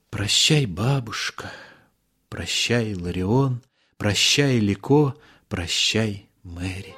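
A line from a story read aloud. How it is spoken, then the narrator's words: Whisper. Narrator (Russian): шептал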